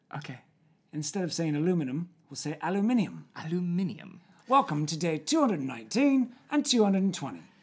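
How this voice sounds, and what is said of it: Fake English accent. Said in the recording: “I wanted to do today in a fake English accent ... you can't handle my fake English accent”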